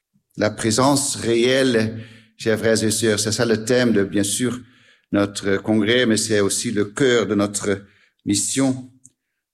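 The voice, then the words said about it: Slight Dutch accent in French. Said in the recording (French): “si vous entendez un petit accent ... c'est parce que je suis hollandais”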